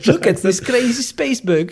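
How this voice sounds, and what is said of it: Dutch-accented Paul Verhoeven impression. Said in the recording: “the Dutch accent”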